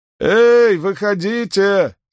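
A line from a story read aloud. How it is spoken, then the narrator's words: Shouting. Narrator (Russian): снова крикнул Перин лудильщикам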